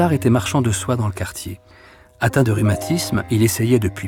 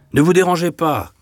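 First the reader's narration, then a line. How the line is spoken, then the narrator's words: Draper shouting. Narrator (French): cria le drapier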